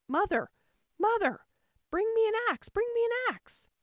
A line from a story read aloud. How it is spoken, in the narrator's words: he called out